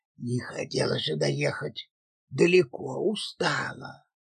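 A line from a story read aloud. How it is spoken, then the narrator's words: Whispering. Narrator (Russian): Морозов, переходя на шепот, произнес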